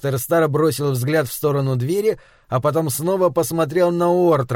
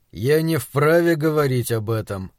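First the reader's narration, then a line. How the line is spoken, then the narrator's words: Firm. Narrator (Russian): Доктор сказал твердо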